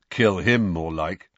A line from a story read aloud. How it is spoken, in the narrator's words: said Fred firmly